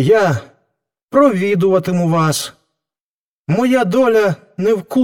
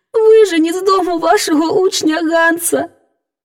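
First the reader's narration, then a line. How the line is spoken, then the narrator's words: Sobbing speech. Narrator (Ukrainian): мовила вона, схлипуючи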